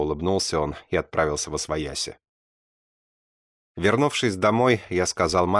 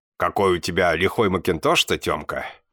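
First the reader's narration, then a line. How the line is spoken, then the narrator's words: Laughing man. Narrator (Russian): хохотнул один из мужиков, мой тезка Артем, отзывающийся на погоняло усатый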